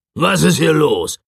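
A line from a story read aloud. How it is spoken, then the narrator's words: Roaring. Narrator (German): brüllte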